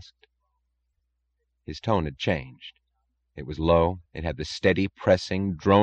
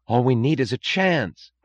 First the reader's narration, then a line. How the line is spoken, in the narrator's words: cried Lawson